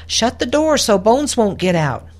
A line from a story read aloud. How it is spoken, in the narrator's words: Amelia called out